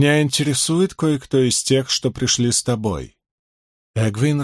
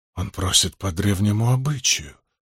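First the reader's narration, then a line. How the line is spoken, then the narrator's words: Mutter. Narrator (Russian): пробормотала Бэйр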